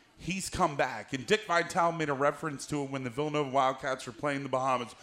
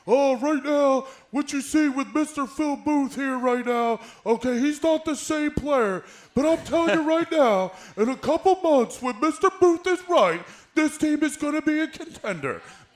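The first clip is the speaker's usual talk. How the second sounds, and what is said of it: Imitates another person's voice. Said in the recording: “Dickie V impersonation”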